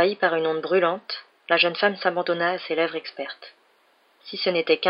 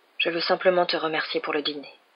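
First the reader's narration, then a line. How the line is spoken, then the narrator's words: Murmured. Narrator (French): murmura-t-il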